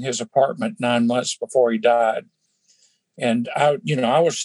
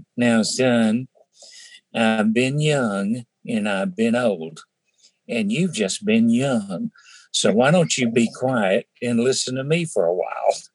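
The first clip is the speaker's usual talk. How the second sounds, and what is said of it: Nasal North Carolina accent. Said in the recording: “he had this nasal North Carolina accent.”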